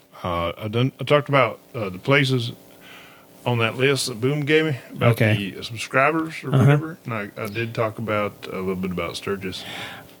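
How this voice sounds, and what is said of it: Strong rural country accent. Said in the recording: “I don't have my accent anymore, and you still sound like a goddamn country bumpkin.”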